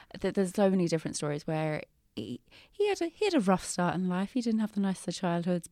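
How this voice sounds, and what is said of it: Very English accent. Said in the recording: “having a very English accent”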